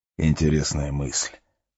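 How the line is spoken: Quiet, sinister new voice. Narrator (Russian): тихо и зловеще сказал новый голос

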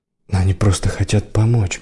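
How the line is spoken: Soft. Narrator (Russian): мягко сказал Кел

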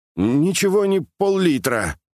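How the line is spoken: Grumbling. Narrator (Russian): проворчал Яшка

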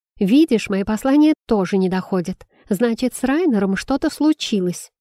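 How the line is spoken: Angry female exclamation. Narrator (Russian): сердито воскликнул женский голос

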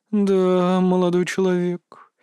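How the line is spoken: Drawled. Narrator (Russian): протянула тем временем Ленна Босхо

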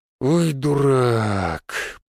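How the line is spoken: Drawn-out drawl. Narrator (Russian): протянул Никитич

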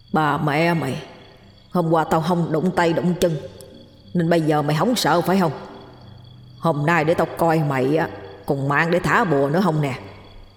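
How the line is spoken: Harsh growl. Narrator (Vietnamese): gằn giọng nói

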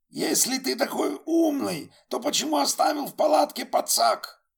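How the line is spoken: Yelling. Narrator (Russian): орал Вилли на друга

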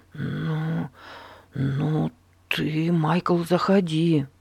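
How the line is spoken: Stammering. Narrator (Russian): запинаясь, пригласил его Эрнест

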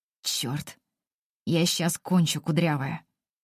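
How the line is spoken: Hoarse rasp. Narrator (Russian): Хрипит

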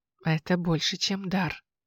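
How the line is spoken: Quiet. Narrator (Russian): тихо сказал он

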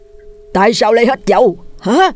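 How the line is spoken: Harsh, menacing. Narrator (Vietnamese): gằn giọng

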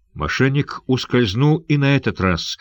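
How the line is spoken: Furious exclamation. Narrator (Russian): в ярости воскликнул Сандакан

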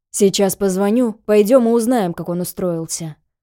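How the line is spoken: Grumbling. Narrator (Russian): проворчал Вася

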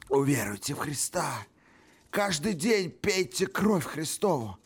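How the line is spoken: Sad whisper. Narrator (Russian): Грустно прошептал он

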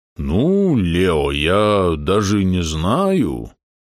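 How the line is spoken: Drawling. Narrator (Russian): протянул он

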